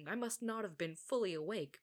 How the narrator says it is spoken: Minhyuk stammered

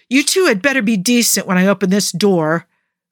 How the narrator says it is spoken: Clay roared

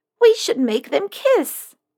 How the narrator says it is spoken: Aunt Betta exclaimed

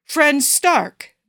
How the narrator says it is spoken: boomed Thor

